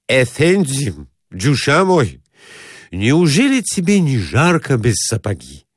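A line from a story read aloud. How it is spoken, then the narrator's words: Shouting. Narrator (Russian): кричал ему Карапет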